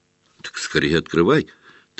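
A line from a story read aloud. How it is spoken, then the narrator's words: Quiet speech. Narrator (Russian): так же тихо проговорил Невилл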